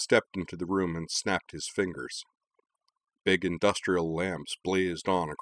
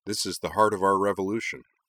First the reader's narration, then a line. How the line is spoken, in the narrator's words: said Corwin